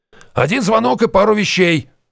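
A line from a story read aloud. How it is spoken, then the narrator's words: Shout while running. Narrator (Russian): на бегу крикнул солдат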